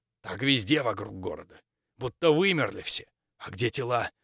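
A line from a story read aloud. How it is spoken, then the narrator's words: Whispered question. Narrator (Russian): Также шепотом спросил Максимилиан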